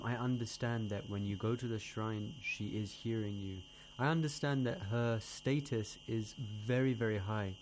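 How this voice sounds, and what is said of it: American accent. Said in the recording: “that's the American accent.”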